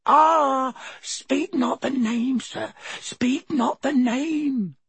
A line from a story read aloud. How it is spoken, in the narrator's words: Dobby moaned